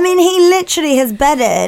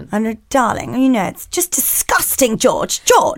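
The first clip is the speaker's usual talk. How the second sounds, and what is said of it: Imitated posh English accent. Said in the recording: “we're laughing because of her voice ... I'd quite like to be as posh as her ... It's a good accent.”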